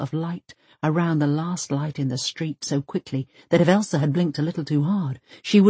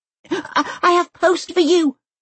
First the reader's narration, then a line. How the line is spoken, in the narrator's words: she cries, into the night